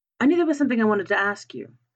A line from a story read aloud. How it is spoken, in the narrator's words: he said